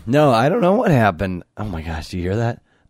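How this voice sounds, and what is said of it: Hoarse, worn-out, old-sounding voice. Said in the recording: “The voice is just gone. ... It sounds like somebody else. ... You sound like Jeremy when you're like 90.”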